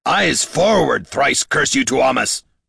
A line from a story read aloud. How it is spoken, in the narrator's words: roared Damrod